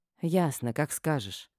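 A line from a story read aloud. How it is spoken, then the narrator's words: Sighing. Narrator (Russian): вздохнула я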